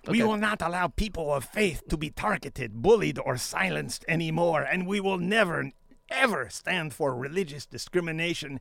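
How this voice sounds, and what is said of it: Imitates another person's voice. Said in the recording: “I'm going to do my Trump impression.”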